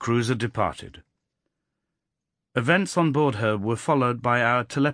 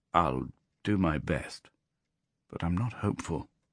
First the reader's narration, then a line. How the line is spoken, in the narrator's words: he muttered